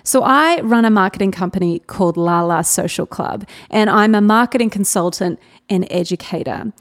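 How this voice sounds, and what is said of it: Australian accent. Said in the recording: “in case you can't sense the Australian accent”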